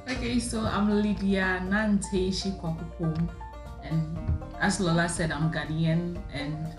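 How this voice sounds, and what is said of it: Ghanaian accent. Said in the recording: “can you already hear the Ghanaian accent?”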